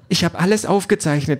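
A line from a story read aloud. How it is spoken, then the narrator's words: Excited blurting. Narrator (German): stößt Carrie jetzt aufgeregt hervor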